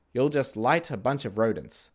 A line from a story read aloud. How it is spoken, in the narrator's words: said